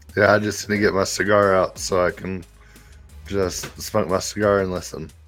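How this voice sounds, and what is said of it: Weak, limited voice, sounds ill. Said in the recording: “fell ill this week, and his voice is very limited today”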